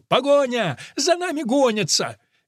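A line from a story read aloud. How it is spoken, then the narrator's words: Shouting while running. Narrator (Russian): Плута на бегу кричал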